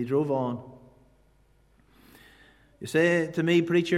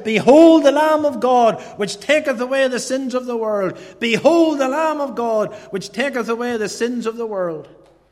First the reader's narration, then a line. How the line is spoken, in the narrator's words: he shouted this text out